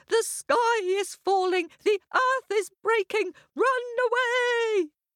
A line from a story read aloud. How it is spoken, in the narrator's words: all shouting